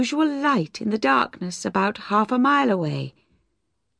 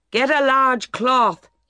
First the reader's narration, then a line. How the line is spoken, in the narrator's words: shouted